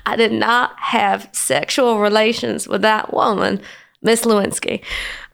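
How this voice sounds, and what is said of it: Bill Clinton impression. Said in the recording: “Bill Clinton ended up being my first ever celebrity impersonation ... Still got the Clinton.”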